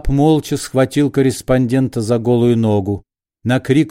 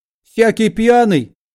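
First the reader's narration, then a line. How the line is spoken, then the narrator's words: Shrill. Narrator (Russian): визгливо начал Рубашкин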